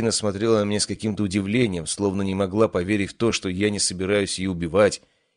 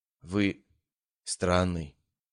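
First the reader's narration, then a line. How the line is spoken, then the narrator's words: Quiet. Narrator (Russian): тихо сказала она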